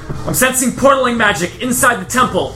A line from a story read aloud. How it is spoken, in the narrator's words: She's essentially shouting in your ears, and she says